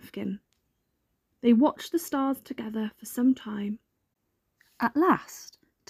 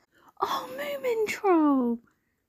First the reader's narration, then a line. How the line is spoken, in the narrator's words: cried Snork Maiden